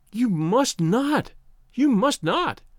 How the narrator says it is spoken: she cried wildly

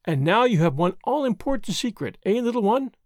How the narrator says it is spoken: said Marguerite, merrily,

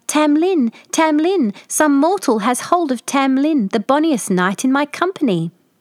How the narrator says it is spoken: the Fairy Queen cried out

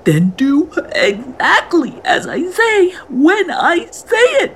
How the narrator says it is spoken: he called out

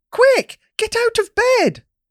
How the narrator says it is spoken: Mum shouts really loud

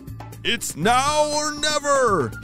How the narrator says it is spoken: he shouted

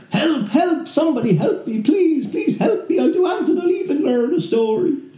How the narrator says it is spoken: screaming out

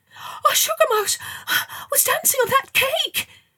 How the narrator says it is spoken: she gasped

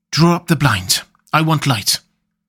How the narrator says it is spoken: I could hear the sissing indraw of his breath, and he said to me in a sharp whisper

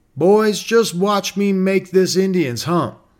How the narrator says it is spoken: he cried out

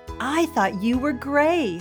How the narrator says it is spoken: Jody cried

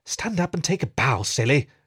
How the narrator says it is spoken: she hissed and grinned

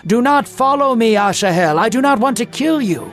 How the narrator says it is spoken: Abner shouted

